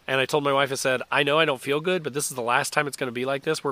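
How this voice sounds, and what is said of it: Congested voice from a cold. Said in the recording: “You can probably tell from my voice, I have a cold”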